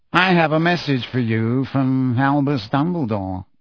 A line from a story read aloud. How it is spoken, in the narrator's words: Phineas Nigellus said lazily